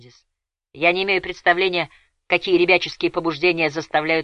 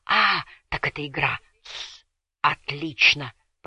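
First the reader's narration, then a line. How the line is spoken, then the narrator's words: Whispering. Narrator (Russian): прошептал Кордер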